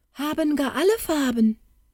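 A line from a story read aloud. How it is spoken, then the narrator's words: Calling out. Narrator (German): rief das vierte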